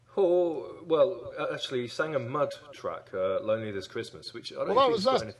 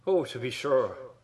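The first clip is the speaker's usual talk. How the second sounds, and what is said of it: Put-on Irish accent. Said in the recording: “Can you do an Irish voice?”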